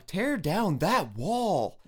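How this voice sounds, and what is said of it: Imitates another person's voice. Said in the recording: “How do you like my impression?”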